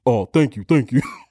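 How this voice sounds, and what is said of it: Imitates another person's voice. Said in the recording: “That's how his voice was.”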